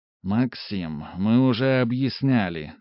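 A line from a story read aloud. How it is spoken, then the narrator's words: Tired. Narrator (Russian): устало сказал Олег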